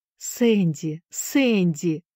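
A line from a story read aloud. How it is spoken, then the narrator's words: Exclaimed. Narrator (Russian): воскликнула, наконец, миссис Шафта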